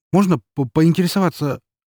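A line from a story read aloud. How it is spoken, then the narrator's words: Slightly stammering question. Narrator (Russian): слегка запинаясь, спросил я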